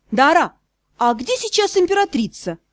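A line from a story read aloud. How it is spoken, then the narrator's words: Suddenly sharp. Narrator (Russian): возрожденный дух неожиданно резко произнесла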